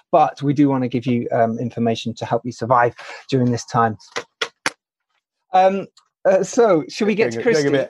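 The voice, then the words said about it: Mock Anchorman newsreader voice. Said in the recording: “A bit heavy on the Anchorman impersonation.”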